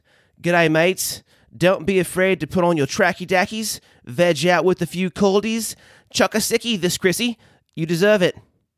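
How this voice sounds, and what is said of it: Put-on Australian accent. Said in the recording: “in my best Australian accent”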